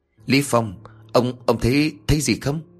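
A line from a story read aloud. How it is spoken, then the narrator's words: Stammering, barely audible. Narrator (Vietnamese): Hắn lắp bắp nói không thành tiếng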